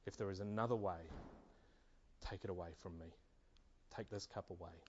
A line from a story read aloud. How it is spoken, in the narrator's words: He wept and pleaded